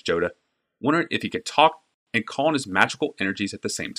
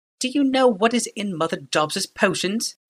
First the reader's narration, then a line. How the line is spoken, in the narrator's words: said, her voice dripping with venom